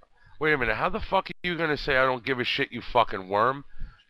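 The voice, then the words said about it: Brooklyn accent. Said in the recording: “I'm from Brooklyn, dude. ... You can't tell by the accent?”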